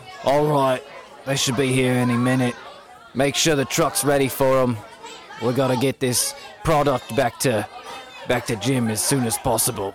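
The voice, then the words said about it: Character voice with accent like Kano. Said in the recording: “That's an interesting accent. ... It's like Kano.”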